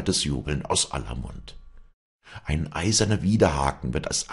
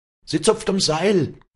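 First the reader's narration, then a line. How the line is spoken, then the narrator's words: Shouted from the front. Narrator (German): schrie der Vorderste von der Kette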